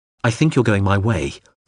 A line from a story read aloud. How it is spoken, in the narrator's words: Hawser said quickly